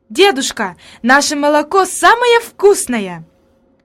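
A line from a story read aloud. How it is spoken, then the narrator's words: Exclamation. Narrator (Russian): она воскликнула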